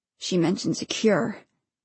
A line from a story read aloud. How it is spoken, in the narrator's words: 72 said quietly